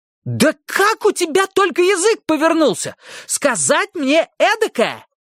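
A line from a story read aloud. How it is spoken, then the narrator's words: Screaming. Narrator (Russian): завопила она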